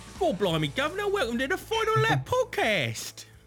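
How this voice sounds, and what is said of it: Put-on Cockney accent. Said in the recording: “Excellent, excellent Cockney accent.”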